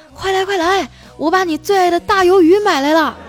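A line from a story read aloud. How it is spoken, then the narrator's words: Eager shouting. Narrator (Chinese): 另一个店员一边走啊还一边冲我们这头嚷嚷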